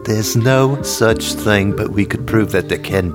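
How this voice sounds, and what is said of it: Put-on accent. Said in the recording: “I'm actually holding an accent without screwing it up and making it Jamaican”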